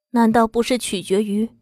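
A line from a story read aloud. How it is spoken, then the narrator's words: Hoarse, strained voice. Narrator (Chinese): 艰难发出沙哑沧桑的声音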